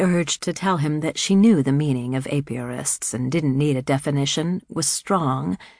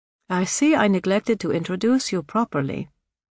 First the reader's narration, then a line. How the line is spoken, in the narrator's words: Sister Ignatia said dryly